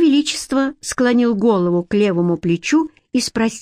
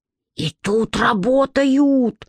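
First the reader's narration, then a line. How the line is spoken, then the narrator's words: Upset whisper. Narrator (Russian): шепотом огорчился Петька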